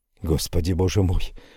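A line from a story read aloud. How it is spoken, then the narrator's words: Whisper. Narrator (Russian): прошептал я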